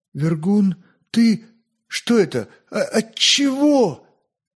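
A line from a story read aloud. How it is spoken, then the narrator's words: Strained, tearful astonishment. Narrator (Russian): Удивленно захлопав очами, в которых еще стояли слезы отчаяния, он только смог с трудом выдавить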